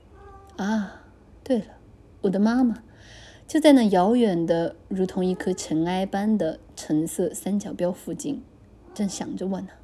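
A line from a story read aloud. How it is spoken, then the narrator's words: Coughing, stammering. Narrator (Chinese): 康帕内拉像是鼓足了勇气，边咳嗽边结结巴巴的说道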